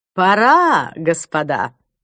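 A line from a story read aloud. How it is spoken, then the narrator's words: Brisk command. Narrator (Russian): бодрым голосом скомандовал Клайв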